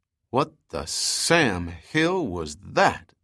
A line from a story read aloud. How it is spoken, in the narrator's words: Dahlgren drawled